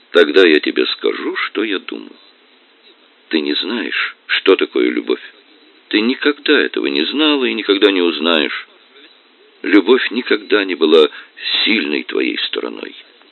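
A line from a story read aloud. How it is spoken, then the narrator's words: Completely calm. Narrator (Russian): Она сказала совершенно спокойно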